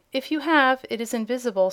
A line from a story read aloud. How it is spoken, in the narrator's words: said the Princess